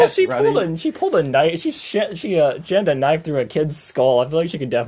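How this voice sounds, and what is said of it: Usual voice. Nothing is said of it.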